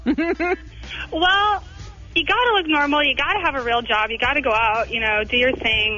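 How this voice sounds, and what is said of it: Valley Girl way of talking. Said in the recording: “talking like a Valley Girl since the 80s”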